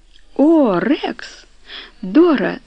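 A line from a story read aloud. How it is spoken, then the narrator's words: Laughing. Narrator (Russian): засмеялся он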